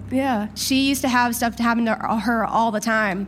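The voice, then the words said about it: Shaky, nervous voice. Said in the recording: “my voice is so shaky”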